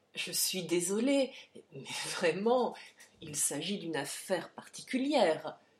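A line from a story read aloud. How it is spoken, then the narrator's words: Stammering. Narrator (French): balbutia Harry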